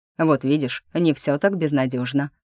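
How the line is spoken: Snorting. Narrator (Russian): хмыкнул принц

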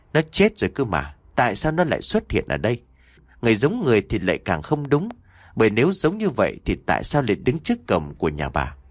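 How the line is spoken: Whispered. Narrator (Vietnamese): Bà thì thầm nói

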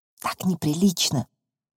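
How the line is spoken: Whispered. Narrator (Russian): шепнула Глаша

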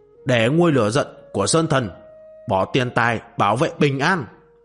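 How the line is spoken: Loud yell. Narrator (Vietnamese): Đạo nhân mặt thẹo lúc này gào to

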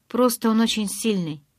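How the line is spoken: Exclamation. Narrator (Russian): воскликнула

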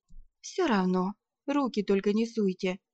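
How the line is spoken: Sighing. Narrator (Russian): вздохнула

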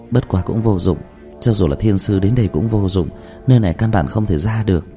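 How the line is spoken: Sighing. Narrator (Vietnamese): Dương Tư Linh thở dài

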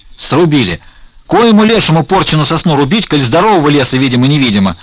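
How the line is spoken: Yelling. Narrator (Russian): орал Потап Максимович

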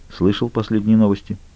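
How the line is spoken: Quiet question. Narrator (Russian): тихо поинтересовался

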